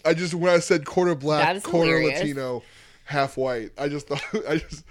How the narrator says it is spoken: I laughed

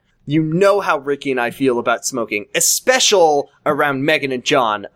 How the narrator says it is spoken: I said calmly

